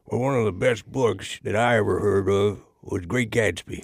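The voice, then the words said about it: Mock Southern accent, odd critic voice. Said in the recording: “They talk Southern and weird.”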